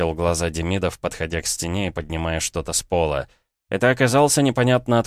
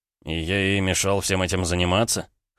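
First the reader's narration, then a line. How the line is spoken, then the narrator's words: Skeptical snort. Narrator (Russian): хмыкнул Ромка, скептически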